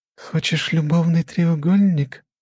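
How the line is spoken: Cheerful whisper. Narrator (Russian): весело шепнула Маша

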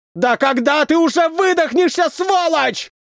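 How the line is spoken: Shouting. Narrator (Russian): закричал мне воздушник спустя 2 часа

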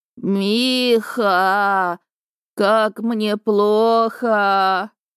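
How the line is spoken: Groaning. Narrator (Russian): Бывший застонал

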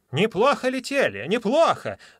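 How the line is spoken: Old man shouting. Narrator (Russian): закричал старичок

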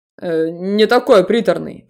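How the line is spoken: Grumbling. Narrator (Russian): проворчал Себастьян

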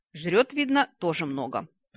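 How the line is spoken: Grumbling. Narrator (Russian): проворчала

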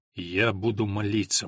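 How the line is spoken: Gloomy. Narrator (Russian): мрачно сказал он

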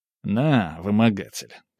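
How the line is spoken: Grumbling. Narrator (Russian): проворчал

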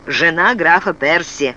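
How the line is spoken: Gloomy stonemason. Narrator (Russian): мрачно сказал каменотес

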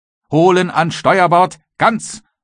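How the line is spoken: Captain thundering. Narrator (German): donnerte der Kapitän

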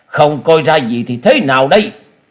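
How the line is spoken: Angry snort. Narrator (Vietnamese): Tứ độc thư sinh tức giận hừ lên một tiếng

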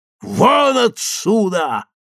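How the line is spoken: Shouting at full strength. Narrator (Russian): крикнула она изо всех сил

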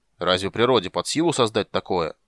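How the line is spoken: Snort. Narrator (Russian): Карамон фыркнул

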